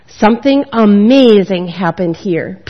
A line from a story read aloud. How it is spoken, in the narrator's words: Peter said